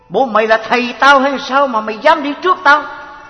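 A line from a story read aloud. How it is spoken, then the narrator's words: Scolding harshly. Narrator (Vietnamese): Ông thầy lại nạt nộ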